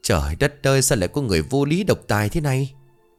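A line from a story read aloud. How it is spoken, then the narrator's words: Indignant sigh. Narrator (Vietnamese): Bà Năm bất bình thở dài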